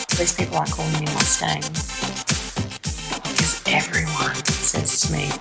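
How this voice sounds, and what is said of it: Thick foreign accent. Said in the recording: “I know I have a thick accent.”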